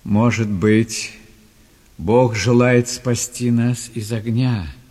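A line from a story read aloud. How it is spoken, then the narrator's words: Plain, several voices. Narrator (Russian): сказали три друга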